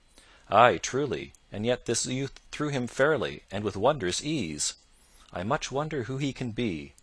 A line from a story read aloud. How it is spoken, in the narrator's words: thus said Sir Richard in a thoughtful voice